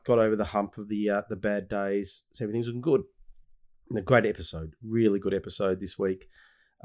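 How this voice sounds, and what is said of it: Nasal, congested voice. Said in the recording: “my voice sounds a bit funny, a bit nasally. I've had a cold.”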